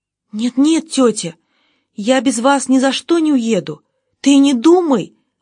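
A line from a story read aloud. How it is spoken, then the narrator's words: Exclaimed, young woman. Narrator (Russian): воскликнула девушка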